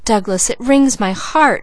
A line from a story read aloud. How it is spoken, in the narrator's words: cried Leslie